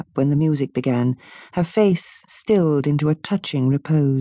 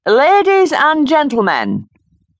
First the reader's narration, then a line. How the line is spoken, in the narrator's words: the polite opening was drowned in a roar of derision